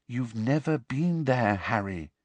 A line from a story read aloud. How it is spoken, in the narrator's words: said Hermione quietly